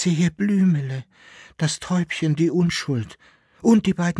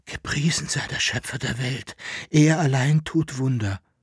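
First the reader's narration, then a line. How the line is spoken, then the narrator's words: Whisper. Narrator (German): flüsterte Jekyll-Henard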